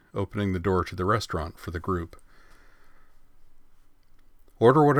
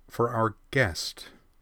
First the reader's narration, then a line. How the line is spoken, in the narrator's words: Ui added firmly